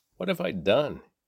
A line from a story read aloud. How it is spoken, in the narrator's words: he exclaimed